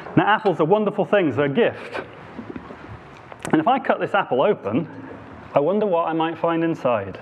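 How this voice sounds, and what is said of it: Devon English accent. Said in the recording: “my Devon accent”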